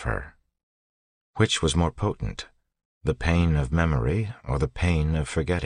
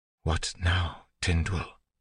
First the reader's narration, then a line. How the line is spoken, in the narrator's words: whispered